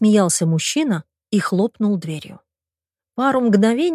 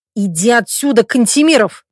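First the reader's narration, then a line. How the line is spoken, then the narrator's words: Growled. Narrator (Russian): прорычал Миша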